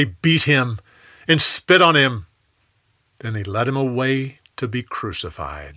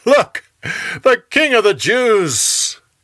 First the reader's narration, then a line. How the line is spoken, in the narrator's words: They laughed and said